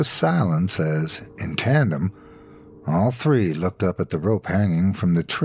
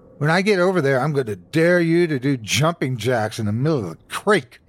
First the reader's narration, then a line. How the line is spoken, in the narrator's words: he yelled at me